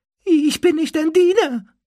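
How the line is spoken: Squeaking. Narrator (German): quiekte er

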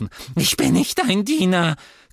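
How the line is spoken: Squeaked. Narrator (German): quiekte er

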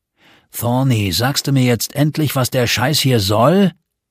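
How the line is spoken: Irritated growl. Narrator (German): knurrte Hurst gereizt

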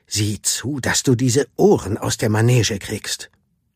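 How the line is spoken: Hissed. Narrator (German): zischte

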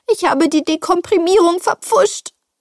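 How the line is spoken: Whining lament. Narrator (German): jammerte

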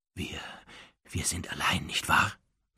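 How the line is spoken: Quiet question. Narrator (German): fragte Narzissa leise

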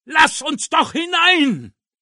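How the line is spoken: Shouting. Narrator (German): schrie er

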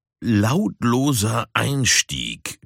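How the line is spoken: Embarrassed growl. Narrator (German): knurrte Puma betreten

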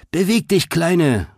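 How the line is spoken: Calling while racing past. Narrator (German): rief, als sie vorbeiraste

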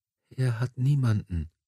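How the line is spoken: Whispered. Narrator (German): flüsterte sie

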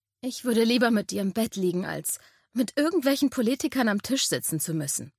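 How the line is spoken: Sighing confession. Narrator (German): gestand seufzend

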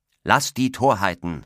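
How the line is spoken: Interrupting call. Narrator (German): rief Roland dazwischen

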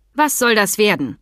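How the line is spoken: Stern question. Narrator (German): fragte sie streng

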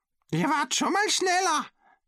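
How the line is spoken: Cheerful call. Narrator (German): rief es vergnügt

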